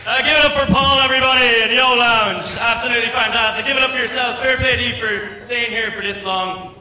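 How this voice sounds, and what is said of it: Irish accent. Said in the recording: “he's a cute-ass Irish accent ... this is a real Irish accent”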